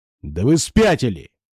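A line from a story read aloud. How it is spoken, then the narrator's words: Barking snap. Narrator (Russian): рявкнул Морган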